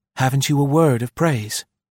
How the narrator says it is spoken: she asked brokenly

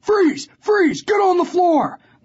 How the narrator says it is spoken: They were all screaming

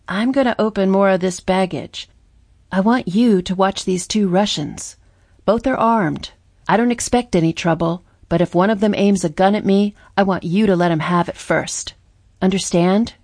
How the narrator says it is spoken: murmured

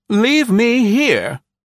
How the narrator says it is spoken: she snorted

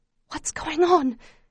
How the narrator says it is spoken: managed to whisper

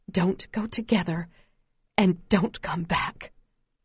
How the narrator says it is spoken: Ma whispers

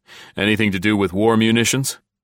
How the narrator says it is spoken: Riley chuckled

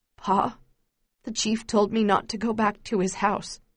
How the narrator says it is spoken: he says in a trembling voice

